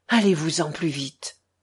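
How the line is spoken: Pleading. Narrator (French): implora Alyosha les mains jointes

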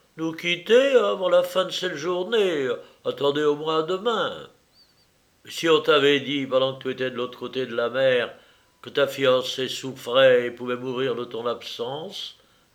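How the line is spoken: Answered gravely. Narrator (French): répondit gravement Pierre

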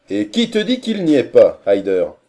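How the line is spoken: Loud question. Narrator (French): demanda-t-il d'une voix forte

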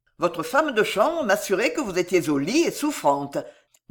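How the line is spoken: Laughing. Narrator (French): dit en riant

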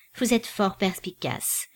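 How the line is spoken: Dry curt retort. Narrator (French): riposta plus sèchement Madame Merle

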